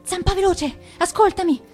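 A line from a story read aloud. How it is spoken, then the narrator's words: Breathless voice. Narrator (Italian): disse Penna Nera con voce affannata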